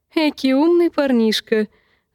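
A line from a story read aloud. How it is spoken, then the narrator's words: Laughing. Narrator (Russian): засмеялся Дик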